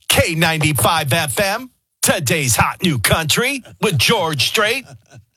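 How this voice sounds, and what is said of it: Country radio DJ voice, syllable-by-syllable. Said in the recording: “you go into your country radio voice ... Country radio voices are always in syllables.”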